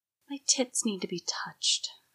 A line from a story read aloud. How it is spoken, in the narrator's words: she whispered, almost to herself